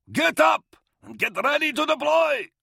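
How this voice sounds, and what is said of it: Yelling in a thick foreign accent. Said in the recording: “Spetnin yelled in his thick, Vergestite accent.”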